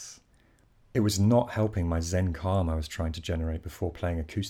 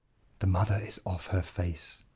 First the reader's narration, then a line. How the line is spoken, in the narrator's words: whispered